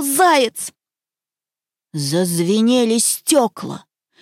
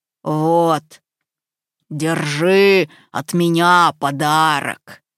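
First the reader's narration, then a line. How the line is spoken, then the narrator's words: Bear's growl. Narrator (Russian): прорычал медведь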